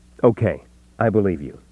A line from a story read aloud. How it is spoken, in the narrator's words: he said, making his voice brisk and businesslike